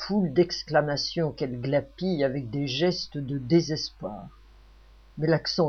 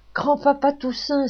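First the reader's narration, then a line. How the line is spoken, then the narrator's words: Exclaimed. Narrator (French): s'écrie Louise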